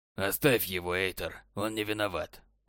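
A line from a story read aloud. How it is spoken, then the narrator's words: Cold adviser. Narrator (Russian): холодно сказал советник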